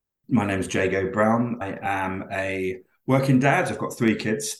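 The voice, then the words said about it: English accent. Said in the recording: “has a very English accent”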